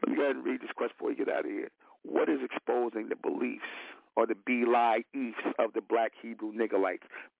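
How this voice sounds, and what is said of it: Slightly hoarse voice. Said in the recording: “been a little hoarse”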